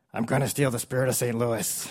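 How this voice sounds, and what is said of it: Imitates another person's voice, not good. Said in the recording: “your best Nicolas Cage impression ... it doesn't need to be a good Nicolas Cage”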